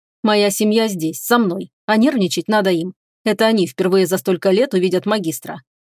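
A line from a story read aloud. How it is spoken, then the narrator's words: Even-toned answer. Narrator (Russian): ровным голосом ответил он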